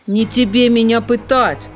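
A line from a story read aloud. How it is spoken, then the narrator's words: Snapping dog. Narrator (Russian): огрызнулся пес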